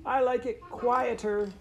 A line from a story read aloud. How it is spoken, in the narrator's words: Cathabel shouted back